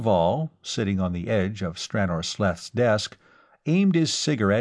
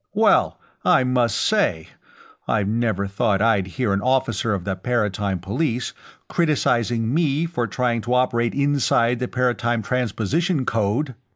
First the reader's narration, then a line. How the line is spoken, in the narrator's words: Brannad Clav exclaimed